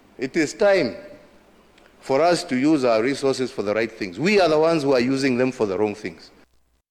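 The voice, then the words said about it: Kenyan-accented English, Uhuru Kenyatta. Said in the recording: “President Uhuru Kenyatta, fourth president of the Republic of Kenya ... I love the accent.”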